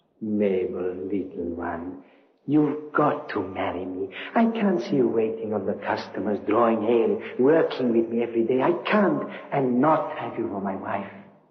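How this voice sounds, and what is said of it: Slight accent, attractive voice. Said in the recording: “An interesting accent, hmm? Intriguing. ... that voice and that touch of accent was attractive”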